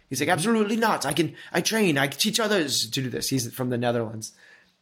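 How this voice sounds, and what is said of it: Put-on Dutch accent. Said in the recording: “Oh, that's my Netherlands accent.”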